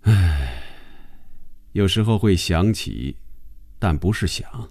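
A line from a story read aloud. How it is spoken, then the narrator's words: Detached, indifferent reply. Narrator (Chinese): 红军往后靠在椅背上，淡淡的回答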